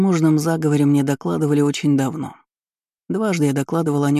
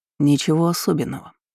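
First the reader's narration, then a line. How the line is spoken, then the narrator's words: Perfectly steady voice. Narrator (Russian): ответил ровным голосом, в котором не дрогнула ни одна нотка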